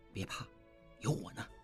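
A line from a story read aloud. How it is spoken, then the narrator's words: Soft low voice. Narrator (Chinese): 应季低声说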